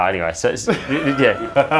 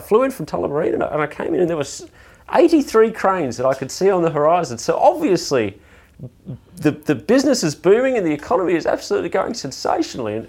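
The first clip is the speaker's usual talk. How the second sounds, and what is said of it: Imitates another person's voice. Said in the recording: “Oh, I could do my um, Craig James impersonation anytime you like... I've been aching to do my Craig James impersonation for a long time.”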